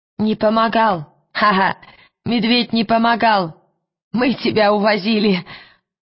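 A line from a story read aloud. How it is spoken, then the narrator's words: Loud laughter. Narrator (Russian): Он расхохотался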